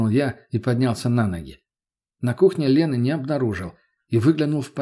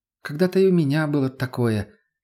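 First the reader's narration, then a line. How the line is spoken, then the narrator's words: Slightly sad sigh. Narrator (Russian): немного грустно вздохнула она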